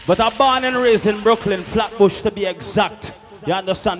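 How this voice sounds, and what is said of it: Trinidadian Jamaican accent. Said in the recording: “with a Trinidadian Jamaican accent”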